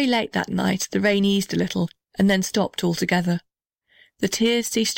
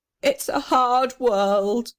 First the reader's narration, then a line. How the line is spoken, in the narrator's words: sobbed the little red house, squeezing out another tear